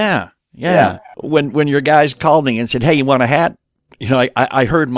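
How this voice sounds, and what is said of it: Usual voice. Nothing is said of it.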